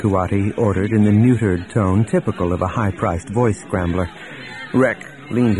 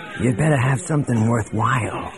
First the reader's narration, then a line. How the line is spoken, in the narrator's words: he hissed